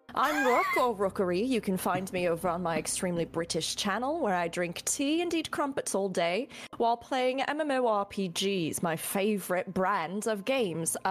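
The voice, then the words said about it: Put-on British accent. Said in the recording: “a little bit of a cheeky intro in an English accent ... My British accent is spotless. It's pristine. It's as shiny as a brand new spud gun.”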